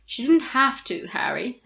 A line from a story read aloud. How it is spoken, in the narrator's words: Hermione sighed